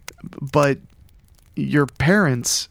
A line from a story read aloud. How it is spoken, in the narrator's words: he sputtered